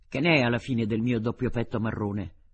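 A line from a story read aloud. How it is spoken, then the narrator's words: Brusque question. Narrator (Italian): gli domandò in tono brusco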